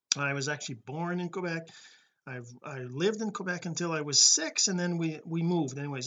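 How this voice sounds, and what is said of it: French Canadian accent. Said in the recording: “I'm French Canadian as you can probably tell from my name my accent”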